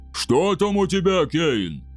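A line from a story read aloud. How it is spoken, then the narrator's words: Distant roar. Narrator (Russian): проревел Двослир от завала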